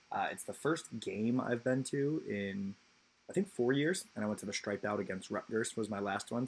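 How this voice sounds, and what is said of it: Hoarse, strained voice. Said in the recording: “My voice is still a little shot.”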